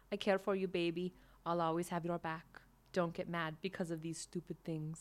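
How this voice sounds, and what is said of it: Weak put-on German accent. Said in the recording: “That's not a good German accent”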